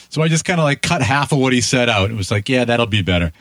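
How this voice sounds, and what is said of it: Boston East Coast accent, fast talking. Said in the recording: “It sounded a little, you know, ... East Coast, ... a little Boston-ish. ... it's the accent and talking really fast.”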